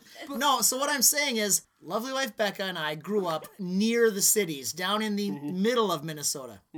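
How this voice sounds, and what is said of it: Strong Minnesotan accent. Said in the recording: “you have a total Minnesotan accent”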